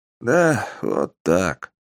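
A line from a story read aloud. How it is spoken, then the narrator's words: Heavy sigh. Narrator (Russian): тяжело вздохнул Аликарон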